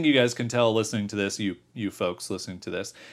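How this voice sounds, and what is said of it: Usual voice. Nothing is said of it.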